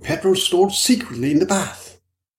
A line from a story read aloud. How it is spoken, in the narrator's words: Middleton excitedly